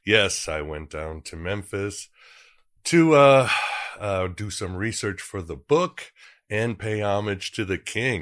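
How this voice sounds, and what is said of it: Congested, stuffed-up voice. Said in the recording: “I sound a little stuffed up, ... got a bit of a cold”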